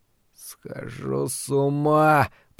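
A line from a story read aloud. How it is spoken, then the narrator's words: Moaning. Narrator (Russian): простонал Ларри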